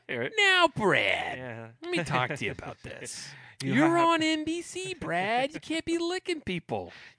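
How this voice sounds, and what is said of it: Impression of Gary Bettman. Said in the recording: “You are full of stupid impressions ... the Gary Bettman”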